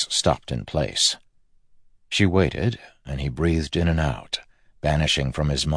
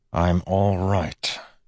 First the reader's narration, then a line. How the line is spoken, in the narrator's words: he said to Steris through clenched teeth